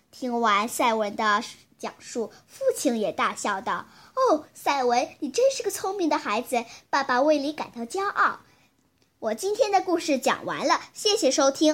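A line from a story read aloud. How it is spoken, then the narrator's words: Hearty laughter. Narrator (Chinese): 赛文哈哈大笑道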